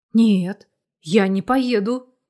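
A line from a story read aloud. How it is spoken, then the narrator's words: Anxious exhale. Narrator (Russian): выдохнула Тоня, переживая за себя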